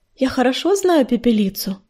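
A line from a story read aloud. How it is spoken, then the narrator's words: Purring. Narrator (Russian): мурлыкнула она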